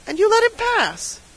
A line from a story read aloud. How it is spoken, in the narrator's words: cried the surgeon